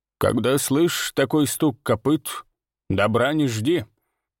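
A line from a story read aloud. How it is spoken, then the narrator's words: Gloomy mutter. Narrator (Russian): мрачно буркнула Ирма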